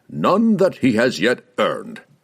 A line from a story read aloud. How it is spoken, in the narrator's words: Malcor replied curtly